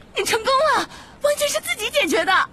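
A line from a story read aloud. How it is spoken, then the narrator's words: Shouting. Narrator (Chinese): 赫敏喊道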